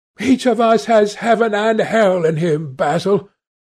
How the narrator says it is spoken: cried Dorian with a wild gesture of despair

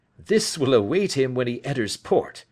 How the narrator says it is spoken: said he, chuckling

